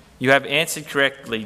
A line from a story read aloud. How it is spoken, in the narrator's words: Jesus replied